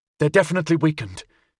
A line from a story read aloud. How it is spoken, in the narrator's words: said between breaths